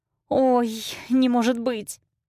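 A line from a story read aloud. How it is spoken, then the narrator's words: Frightened mutter. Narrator (Russian): испуганно бормочет Ким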